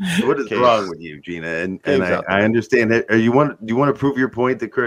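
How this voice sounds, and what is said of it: Usual voice. Nothing is said of it.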